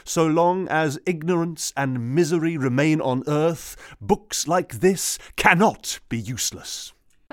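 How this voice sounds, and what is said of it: Grand, ringing oratorical delivery. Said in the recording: “went all ch- Churchillian on us ... it's quite is, ringing, isn't it? ... It's very ringing.”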